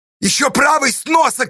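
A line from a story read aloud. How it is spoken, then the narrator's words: Shouting. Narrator (Russian): кричала Сташа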